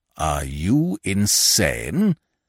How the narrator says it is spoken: growled

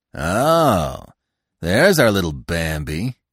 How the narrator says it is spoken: he said scornfully

